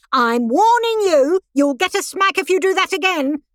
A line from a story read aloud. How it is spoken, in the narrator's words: A young mother screamed at her little boy